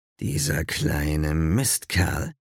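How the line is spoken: Growled. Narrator (German): knurrte Zeus

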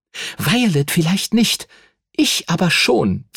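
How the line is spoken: Hissing. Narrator (German): zischte

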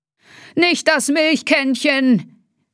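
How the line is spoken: Called out. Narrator (German): rief Dr

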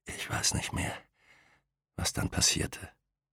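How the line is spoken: Whisper. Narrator (German): flüsterte er

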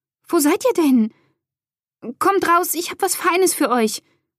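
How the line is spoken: Thin, trembling call. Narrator (German): rief Ellie, aber sie merkte selbst, wie dünn und zittrig ihre Stimme klang

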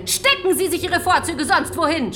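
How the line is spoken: Shouting loudly. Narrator (German): schrie Donna nun lauthals

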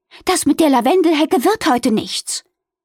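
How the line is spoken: Calling out. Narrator (German): rief

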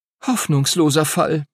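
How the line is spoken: Groaning. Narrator (German): stöhnte Lucy

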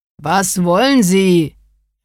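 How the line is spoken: Calling out. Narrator (German): rief entgegen

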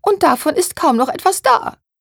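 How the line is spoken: Whining lament. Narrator (German): jammerte Therese

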